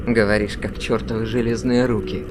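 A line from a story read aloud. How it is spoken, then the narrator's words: Grumbling. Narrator (Russian): проворчал Бейлор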